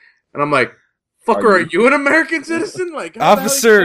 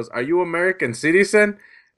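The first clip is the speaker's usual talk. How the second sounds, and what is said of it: Put-on Spanish accent. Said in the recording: “with a Spanish accent, he goes”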